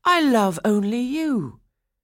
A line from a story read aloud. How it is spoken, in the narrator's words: Franz cried